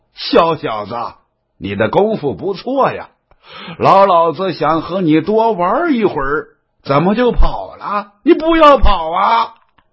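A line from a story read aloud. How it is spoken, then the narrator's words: Hearty laughter. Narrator (Chinese): 刘黑哈哈大笑啊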